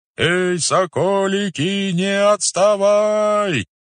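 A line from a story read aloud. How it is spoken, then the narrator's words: Muffled distant calls. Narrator (Russian): глухо доносились перекликающиеся голоса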